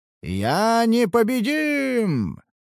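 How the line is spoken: Triumphant roar. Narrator (Russian): проревел Бхарат торжествующе

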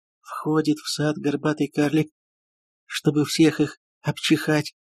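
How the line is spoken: Repeated, sighing. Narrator (Russian): повторил Ганно и вздохнул

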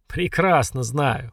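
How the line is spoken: Short laugh. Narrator (Russian): хохотнул Киран

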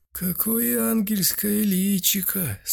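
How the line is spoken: Old man's sweet drawl. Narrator (Russian): сладко протянул один из стариков

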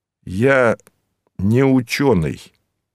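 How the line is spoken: Slow. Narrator (Russian): медленно проговорил я

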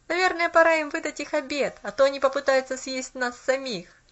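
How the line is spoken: Laughing boy. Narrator (Russian): засмеялся мальчик

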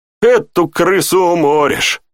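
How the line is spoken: Snorting. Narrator (Russian): хмыкнул Тьерри

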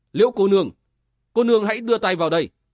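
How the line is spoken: Loud. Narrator (Vietnamese): Tử Văn lớn tiếng nói

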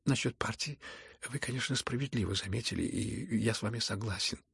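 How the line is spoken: Quiet, after brief pause. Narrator (Russian): тихо ответил князь, капельку помолчав

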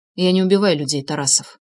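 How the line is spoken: Calm reply. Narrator (Russian): спокойно ответил я

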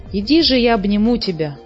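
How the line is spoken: Plain. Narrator (Russian): сказала муми-мама

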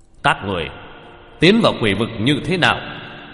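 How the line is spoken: Cold commanding shout. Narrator (Vietnamese): Âm binh dẫn đầu quát lên

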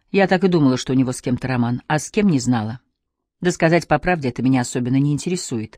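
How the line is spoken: Sharp reply. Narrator (Russian): Она ответила резко

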